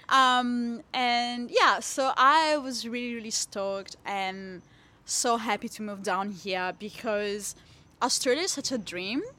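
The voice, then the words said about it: Italian accent in English. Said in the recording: “where my accent is from. yeah, from Italy”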